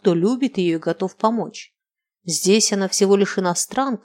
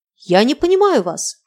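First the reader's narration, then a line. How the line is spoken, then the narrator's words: Shout. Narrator (Russian): крикнула Инна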